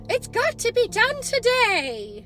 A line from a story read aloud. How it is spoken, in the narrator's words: cried